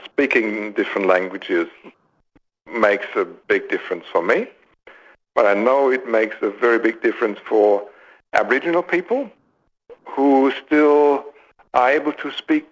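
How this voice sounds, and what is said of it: German accent. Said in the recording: “I've got my German accent”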